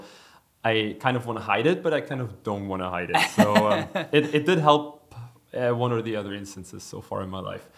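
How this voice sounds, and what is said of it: German accent. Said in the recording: “if they detect this German accent ... I have a German accent. Why? Because I'm born in Germany.”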